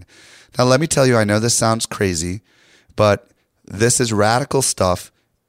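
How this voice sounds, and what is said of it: Hoarse, strained voice. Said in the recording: “my voice is a little shot ... my voice was so bad because I talked to so many people ... I literally lost my voice completely”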